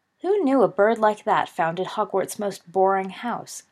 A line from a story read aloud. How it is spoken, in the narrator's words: giggled Sirius